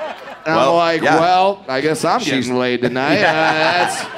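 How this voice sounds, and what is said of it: Usual voice. Nothing is said of it.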